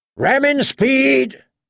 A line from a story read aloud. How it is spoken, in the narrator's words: Davos shouted